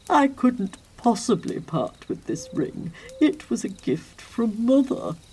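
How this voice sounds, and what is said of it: Pompous nobleman voice. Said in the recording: “doing his best impression of a particularly pompous nobleman”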